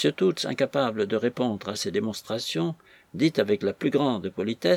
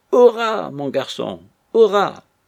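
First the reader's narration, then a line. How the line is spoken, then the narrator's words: Exclaiming. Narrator (French): Toots en s'écriant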